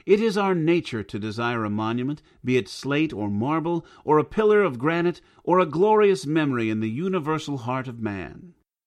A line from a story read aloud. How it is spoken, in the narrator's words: exclaimed the stranger